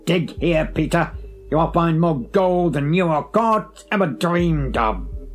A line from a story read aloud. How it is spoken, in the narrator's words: croaked the old woman in a dull voice